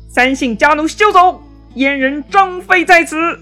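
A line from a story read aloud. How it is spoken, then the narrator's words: Shout. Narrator (Chinese): 有人大喊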